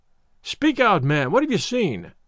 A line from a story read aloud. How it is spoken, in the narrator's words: cried a husky voice